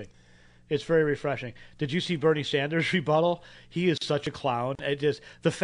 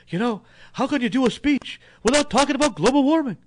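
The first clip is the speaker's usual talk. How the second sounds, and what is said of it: Imitates another person's voice. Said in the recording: “I'll do my best impression of Bernie Sanders”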